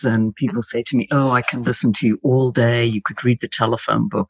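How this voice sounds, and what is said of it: British accent. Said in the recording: “the British accent obviously is in my favor”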